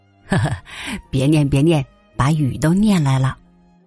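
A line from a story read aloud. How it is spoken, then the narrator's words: Cheerful chuckling father. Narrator (Chinese): 父亲笑嘻嘻的说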